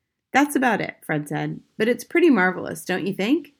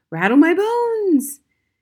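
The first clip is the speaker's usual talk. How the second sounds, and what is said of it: Spooky voice. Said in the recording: “giving a wonderful imitation of a spooky voice.”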